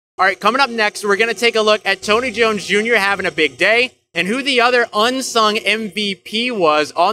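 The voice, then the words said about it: Loud, strained voice over crowd noise. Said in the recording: “I'm going to end up going horse, y'all. I'm sorry if I'm talking too loud. I'm just competing with all of the noise here.”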